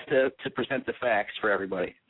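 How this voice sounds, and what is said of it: Slightly sick, funny-sounding voice. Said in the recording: “sorry I'm a little sick, so my voice is a little funny”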